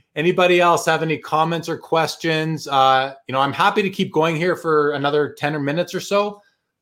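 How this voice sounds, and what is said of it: Worn-out, strained voice. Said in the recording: “My voice is dead.”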